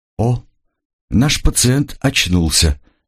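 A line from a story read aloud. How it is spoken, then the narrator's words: Middle-aged man's exclamation. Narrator (Russian): воскликнул мужчина средних лет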